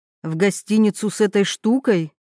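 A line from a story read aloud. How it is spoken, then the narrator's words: Snorted. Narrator (Russian): фыркнула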